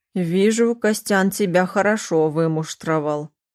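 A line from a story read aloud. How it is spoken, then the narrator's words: Approving snort. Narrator (Russian): одобрительно хмыкнул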